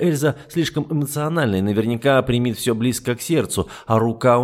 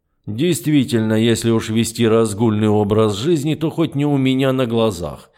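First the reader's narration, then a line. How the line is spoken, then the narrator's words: Grumbling colonel. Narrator (Russian): проворчал полковник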